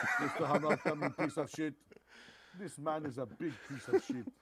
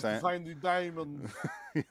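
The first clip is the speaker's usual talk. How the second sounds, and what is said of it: Fake, bad South African accent. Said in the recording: “he's doing the fakes, the terrible South African accent”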